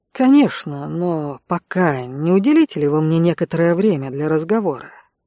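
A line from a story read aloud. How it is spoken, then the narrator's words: Soft but insistent. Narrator (Russian): Мягко, но настойчиво произнес священник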